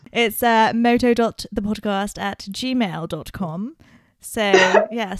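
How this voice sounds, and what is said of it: Put-on Durham accent. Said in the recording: “What was that accent? ... a Durham personality takes over me”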